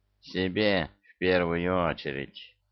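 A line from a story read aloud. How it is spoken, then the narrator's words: Rueful sigh. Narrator (Russian): Гена сокрушенно вздохнул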